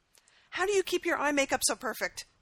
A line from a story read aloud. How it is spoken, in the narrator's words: He blurted out, determined to solve at least one mystery today